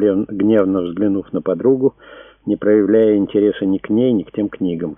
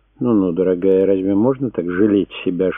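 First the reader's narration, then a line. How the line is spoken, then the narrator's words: Gentle smiling reproach. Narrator (Russian): журила ее Марина, ласково улыбаясь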